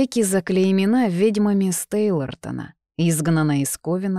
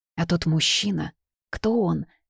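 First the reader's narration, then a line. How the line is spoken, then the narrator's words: Quiet question. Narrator (Russian): тихо спросила я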